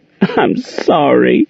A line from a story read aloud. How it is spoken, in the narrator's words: Monique sobbed